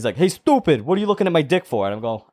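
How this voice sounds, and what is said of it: Put-on Puerto Rican accent. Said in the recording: “because he's Puerto Rican, so he's talking like that. I'm going to do an accent”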